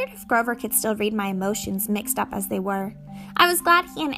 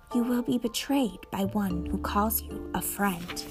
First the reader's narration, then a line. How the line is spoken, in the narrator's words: oracle whispered in my mind